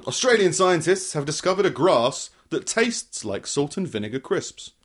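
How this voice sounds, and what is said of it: Put-on Australian accent, self-described as poor. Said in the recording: “I can't do an Australian accent, but I'll give it a go.”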